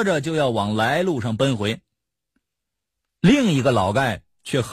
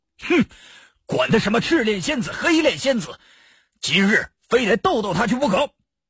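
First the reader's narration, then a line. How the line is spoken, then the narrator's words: Angry yelling. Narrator (Chinese): 那老盖给他这几句话激的是哇哇大叫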